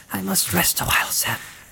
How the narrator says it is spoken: whispered Frodo

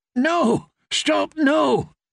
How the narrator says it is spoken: Edwin Frey came panting into view

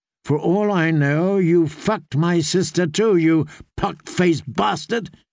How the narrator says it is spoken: he spat out

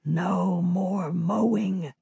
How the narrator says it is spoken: Ray whispers

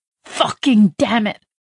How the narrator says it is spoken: she hissed

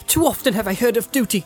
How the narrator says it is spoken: she cried

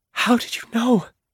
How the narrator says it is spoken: Leah asked in her broken voice

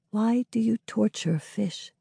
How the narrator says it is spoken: He whispers to his notebook

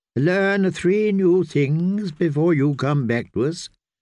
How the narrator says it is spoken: the kindly man had commanded Cat

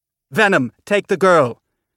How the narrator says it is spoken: shouted over the deafening sound of the ship

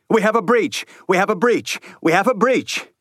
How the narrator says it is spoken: Somewhere nearby, Leeward was shouting

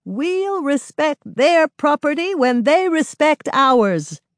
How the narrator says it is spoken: One white-haired, hunchbacked woman shouts

